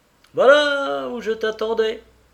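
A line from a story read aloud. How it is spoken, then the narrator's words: Sudden exclamation. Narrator (French): s'écria tout à coup ce dernier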